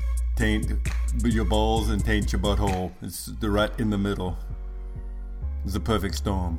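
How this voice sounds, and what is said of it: Put-on Russian accent. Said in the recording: “Russian accent was freaking straight on. Solid.”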